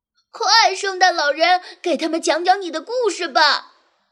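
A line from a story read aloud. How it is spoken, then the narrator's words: Pleading. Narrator (Chinese): 泽克哀求道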